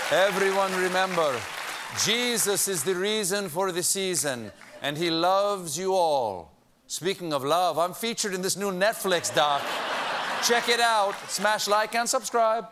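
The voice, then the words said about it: Put-on Argentinian-Italian accent. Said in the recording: “That's my Argentinian-Italian accent.”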